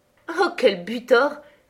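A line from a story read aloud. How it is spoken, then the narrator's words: Hearty laughing. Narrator (French): dis-je en riant de tout mon cœur de son échec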